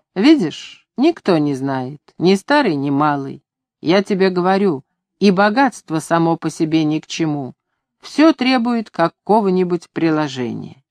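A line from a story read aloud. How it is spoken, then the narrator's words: Annoyed. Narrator (Russian): с досадой Копендюхин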